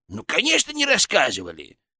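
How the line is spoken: Condescending snort. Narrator (Russian): Фырк снисходительно хмыкнул

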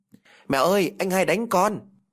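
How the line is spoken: Child screaming. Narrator (Vietnamese): thét

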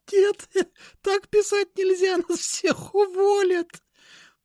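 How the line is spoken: Moaning through laughter, young woman. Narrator (Russian): Простонала сквозь хохот девушка лет 25

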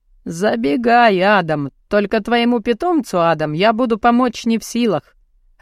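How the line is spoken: Laughing. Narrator (Russian): рассмеялся мужчина

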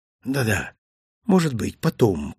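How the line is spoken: Mumbling. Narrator (Russian): пробормотал я

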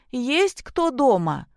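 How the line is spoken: Loud displeased woman. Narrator (Russian): недовольный женский голос произнес громко

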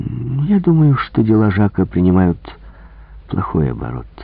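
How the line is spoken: Calm reply. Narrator (Russian): ответил Пуаро спокойно

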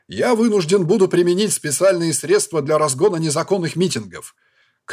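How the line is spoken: Shouting in official role. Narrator (Russian): крикнул я, все еще не выйдя из роли

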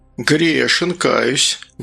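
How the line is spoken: Sighing. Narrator (Russian): Гастон вздохнул

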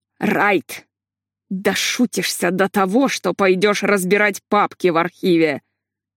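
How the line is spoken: Through gritted teeth. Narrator (Russian): процедил Курт

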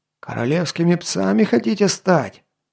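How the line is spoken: Hoarse old man after spitting. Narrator (Russian): Отплевавшись, хрипнул старик

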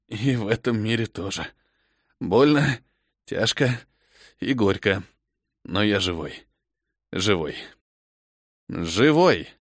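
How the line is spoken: Hoarse, teeth chattering. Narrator (Russian): лязгая зубами, прохрипел

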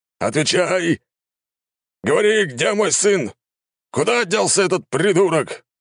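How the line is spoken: Roaring, furious. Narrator (Russian): взревел император

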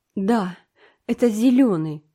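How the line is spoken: Moaning. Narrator (Russian): простонала Энн

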